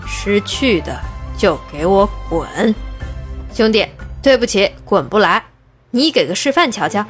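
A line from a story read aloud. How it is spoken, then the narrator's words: Low, slow, word by word. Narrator (Chinese): 下意识地压低了嗓子，一字一顿地说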